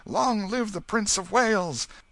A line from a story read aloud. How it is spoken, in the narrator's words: cheer and shout